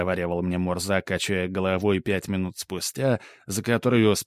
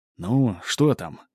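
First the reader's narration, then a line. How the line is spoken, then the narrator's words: Quiet question. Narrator (Russian): тихо спросил я у Мурзы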